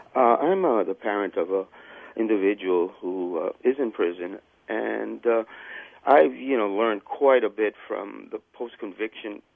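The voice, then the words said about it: Congested voice with a cold. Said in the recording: “I've got a little cold”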